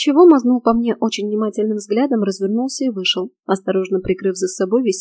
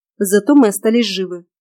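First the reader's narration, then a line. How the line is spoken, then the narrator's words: Snapping. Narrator (Russian): огрызнулась я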